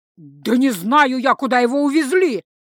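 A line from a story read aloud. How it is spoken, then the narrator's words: Terrified shout. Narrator (Russian): закричал жрец, насмерть перепуганный самой перспективой стать врагом Фарклайда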